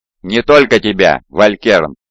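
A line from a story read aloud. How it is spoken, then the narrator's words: Cold reply. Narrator (Russian): холодно ответил Омегон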